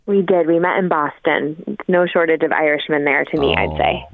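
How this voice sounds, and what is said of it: American accent. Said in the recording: “we gather from the accent, you are from the United States of America”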